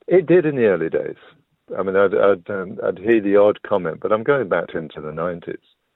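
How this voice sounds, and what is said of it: English accent. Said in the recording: “your English accent”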